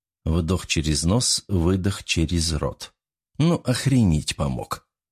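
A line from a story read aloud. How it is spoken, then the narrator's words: Sigh. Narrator (Russian): Я вздохнул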